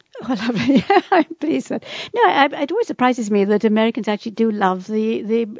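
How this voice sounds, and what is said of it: English accent. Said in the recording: “Isn't that English accent wonderful? ... I love her accent. We could listen to you talk all day long.”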